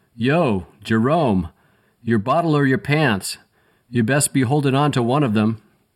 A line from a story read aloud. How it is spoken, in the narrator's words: Somebody yelled